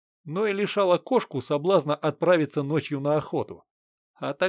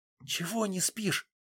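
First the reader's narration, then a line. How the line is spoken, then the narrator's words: Quiet whispered question. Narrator (Russian): спросила она тихим шепотом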